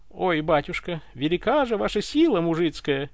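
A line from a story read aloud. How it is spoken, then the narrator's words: Shameless muffled giggle, young woman. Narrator (Russian): хихикнула бессовестно чернявая девка, слегка прикрыв рот ладошкой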